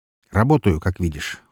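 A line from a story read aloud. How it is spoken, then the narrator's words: Cold. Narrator (Russian): холодно произнес Рахманов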